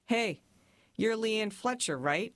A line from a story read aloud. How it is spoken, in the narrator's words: he said